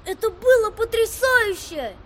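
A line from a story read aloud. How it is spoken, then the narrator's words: Boy shouting. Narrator (Russian): прокричал старший из мальчиков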